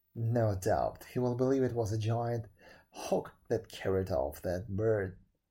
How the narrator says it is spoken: he said, chuckling

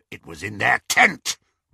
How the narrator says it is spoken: rasped Greyback

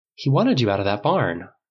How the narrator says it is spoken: Paul said calmly

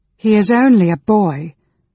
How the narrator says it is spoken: Alhanna cried in a low voice

